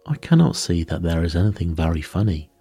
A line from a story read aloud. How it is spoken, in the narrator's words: cried, flushing up to the roots of his flaming head